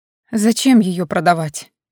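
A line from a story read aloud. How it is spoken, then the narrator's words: Dazed mumbling. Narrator (Russian): оторопело бормотала я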